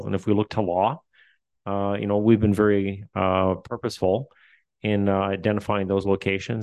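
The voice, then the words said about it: Newfoundland accent. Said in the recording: “Excuse my newfie accent. I say roof. It sounds like a dog”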